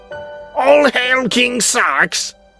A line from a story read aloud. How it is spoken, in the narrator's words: A woman yelled